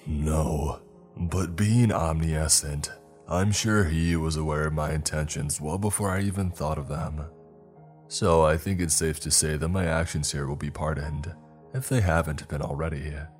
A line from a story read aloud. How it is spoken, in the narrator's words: Michael said, in a booming, diabolically grave voice